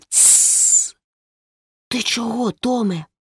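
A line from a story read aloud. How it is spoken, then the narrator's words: Hissed. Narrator (Ukrainian): просичав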